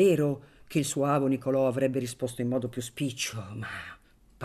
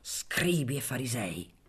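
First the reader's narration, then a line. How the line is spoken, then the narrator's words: Grumbled. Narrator (Italian): brontolò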